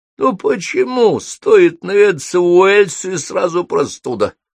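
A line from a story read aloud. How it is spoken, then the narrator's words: Hoarse wheeze. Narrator (Russian): прохрипел Холл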